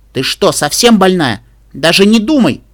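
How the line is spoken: Loud shout. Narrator (Russian): Илли громко крикнула

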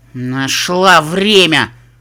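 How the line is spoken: Snapping retort. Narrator (Russian): огрызнулась розовая пони

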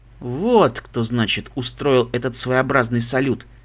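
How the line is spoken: Sighing. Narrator (Russian): Себрастиан вздохнул

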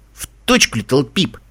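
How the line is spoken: Angry grumble. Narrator (Russian): сердито проворчал Каламити

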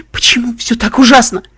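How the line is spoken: Sobbing. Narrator (Russian): рыдала Вельвет

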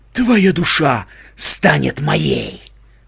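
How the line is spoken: Sinister whisper. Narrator (Russian): зловеще прошептал слепец

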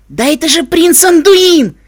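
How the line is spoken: Joyful yell. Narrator (Russian): Радостно заорал жеребчик

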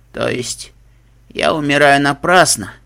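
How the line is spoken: Tired exhale. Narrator (Russian): устало выдохнула единорожица

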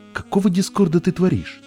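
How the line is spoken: Unicorn exclaiming. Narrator (Russian): воскликнул единорог

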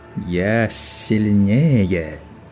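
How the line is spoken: Mocking whistling wind. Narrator (Russian): Насмешливо свистел ветер

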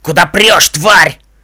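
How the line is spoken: Shouting. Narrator (Russian): крикнул лощеный жеребец

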